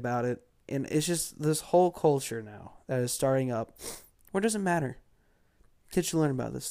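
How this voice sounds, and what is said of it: Congested, tired-sounding voice. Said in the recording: “I'm sorry if I sound bad... I have a cold... trying not to cough... I do sound tired too”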